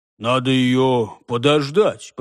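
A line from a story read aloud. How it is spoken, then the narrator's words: Grumbling mutter. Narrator (Russian): пробурчал Хуги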